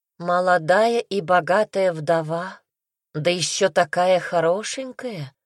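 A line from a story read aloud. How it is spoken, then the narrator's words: Drawled. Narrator (Russian): протянула Синицына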